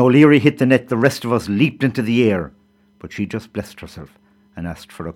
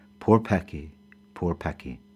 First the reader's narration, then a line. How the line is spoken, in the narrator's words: sighing over and over